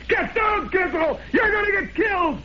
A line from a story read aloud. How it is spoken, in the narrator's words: Somebody yelled